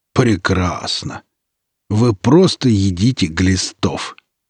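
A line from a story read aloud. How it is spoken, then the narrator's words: Fierce growling. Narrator (Russian): Даже без трансформы в зверя она зарычала так, что и Руд бы ее уважать начал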